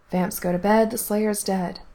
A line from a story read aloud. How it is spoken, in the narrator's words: muttered Faith